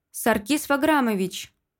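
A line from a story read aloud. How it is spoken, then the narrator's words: Barely restrained shout. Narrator (Russian): еле сдерживаюсь, чтобы не закричать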